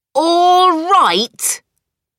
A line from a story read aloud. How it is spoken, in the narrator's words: cried Cindy